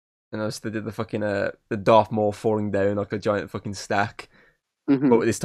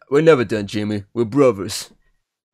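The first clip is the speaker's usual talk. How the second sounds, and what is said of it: Imitates another person's voice. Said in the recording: “I did a Stallone accent”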